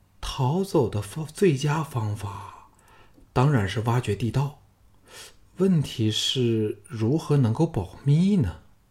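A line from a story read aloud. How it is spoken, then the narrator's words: Trembling young woman. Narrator (Chinese): 娇躯轻颤说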